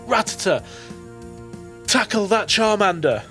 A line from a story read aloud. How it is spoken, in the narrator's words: he is going to shout